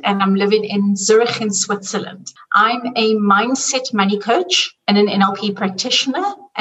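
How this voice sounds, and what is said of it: South African accent. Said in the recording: “I'm originally from South Africa, and you can hear by the accent”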